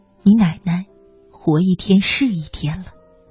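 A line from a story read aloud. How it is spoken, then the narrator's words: Low sigh. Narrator (Chinese): 爸爸低声叹息说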